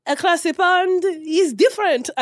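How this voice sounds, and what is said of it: Put-on French accent. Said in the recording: “That was my French accent.”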